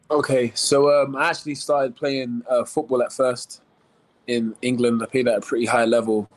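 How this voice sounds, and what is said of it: London English accent. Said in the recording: “you have an accent, and it's not an accent we often hear ... You're from London, England.”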